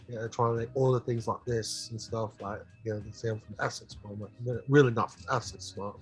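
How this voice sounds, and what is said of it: Put-on British accent. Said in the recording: “my like British accent all the time ... try to talk like this”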